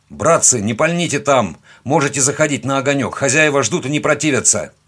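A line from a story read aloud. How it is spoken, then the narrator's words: Shouted. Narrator (Russian): крикнул я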